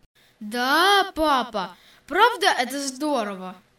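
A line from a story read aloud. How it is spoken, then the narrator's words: Delighted exclamation. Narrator (Russian): Восхищенно воскликнул Витя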